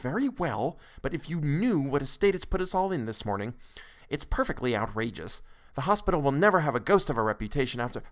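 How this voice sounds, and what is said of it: Hushed voice. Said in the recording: “in a hushed voice.”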